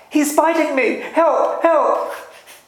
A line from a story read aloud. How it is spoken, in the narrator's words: Yuan Men put his hand into the mouth of a wooden lion and cried out